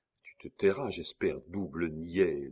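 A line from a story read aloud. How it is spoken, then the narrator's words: Said very quietly. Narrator (French): dit-il tout bas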